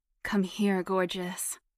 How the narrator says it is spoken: he grunted

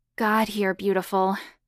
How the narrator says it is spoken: Hannah grunted with desire

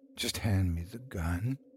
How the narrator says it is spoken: a voice said softly

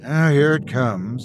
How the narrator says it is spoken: I sighed, knowing what was coming next

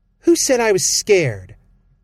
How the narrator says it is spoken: snapped

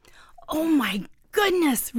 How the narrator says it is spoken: Ruby squealed

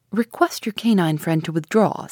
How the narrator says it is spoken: said Ash

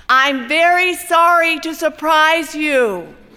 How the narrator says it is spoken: He says loudly

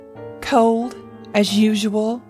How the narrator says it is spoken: Eliza answered sharply

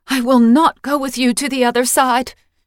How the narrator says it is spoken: she cried, although no sound left her mouth

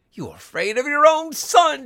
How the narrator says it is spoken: she cried, struggling

